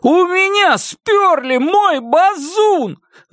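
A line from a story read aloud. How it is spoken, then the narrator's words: Wailing yell. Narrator (Russian): завопил он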